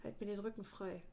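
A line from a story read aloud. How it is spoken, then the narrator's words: Muttering. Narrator (German): murmelte er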